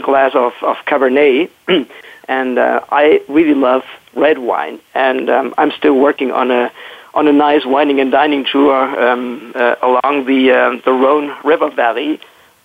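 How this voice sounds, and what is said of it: Hoarse, strained voice. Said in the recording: “I'm close to losing my voice... it's just probably a light cold”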